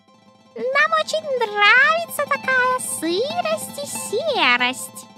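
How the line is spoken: Thin squeaky voices. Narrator (Russian): запищали они тонкими голосками

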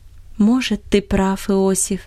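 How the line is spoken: Tender voice. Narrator (Russian): обратилась она к нему ласковым голосом

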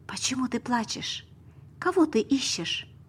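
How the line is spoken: Gentle. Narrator (Russian): Тот, кто к ней подошел, сказал мягко

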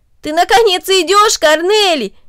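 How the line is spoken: Exclaiming. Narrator (Russian): воскликнул Дино

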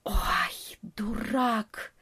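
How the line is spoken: Bat hissing under breath. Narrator (Russian): прошипел вполголоса летучая мышь

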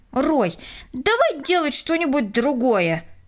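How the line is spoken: Irritated. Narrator (Russian): раздраженно произнесла Кристина

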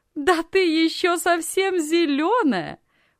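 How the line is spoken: Loud laughter. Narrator (Russian): громко рассмеялась Анна

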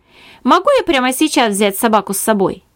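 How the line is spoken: Plain. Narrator (Russian): спросил покупатель

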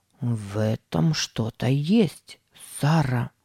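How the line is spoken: Muttered. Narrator (Russian): пробормотал он

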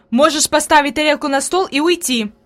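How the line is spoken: Angry. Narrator (Russian): произнесла Фрейлин сердито

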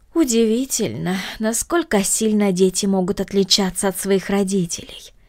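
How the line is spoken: Regretful sigh. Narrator (Russian): вздохнула мисс Гридолин с сожалением в голосе

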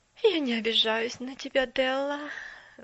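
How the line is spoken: Sigh. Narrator (Russian): вздохнула мисс Керри

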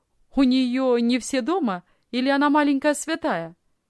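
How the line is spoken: Cheerful question. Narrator (Russian): весело спросил молодой офицер

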